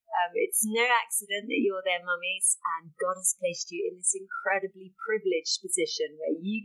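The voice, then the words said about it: British English accent. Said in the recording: “you'll probably tell from the accent that I'm from the UK”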